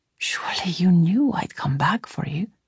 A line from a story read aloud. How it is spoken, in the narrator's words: he whispered, gently scolding me